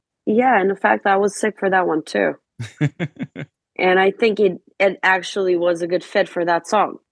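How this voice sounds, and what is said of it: Voice sounds like a cold. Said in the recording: “Sounds like you got a little cold going now, actually.”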